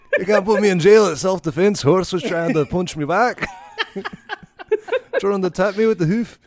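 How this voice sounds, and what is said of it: Put-on Scottish accent. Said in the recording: “Hoof is a very fun thing to say in a Scottish accent.”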